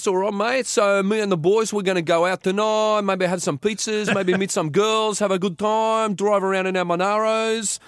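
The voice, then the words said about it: Put-on Greek Australian accent. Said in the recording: “the Greek Australian accent, or the Greek Italian Australian accent ... It's a little bit like this”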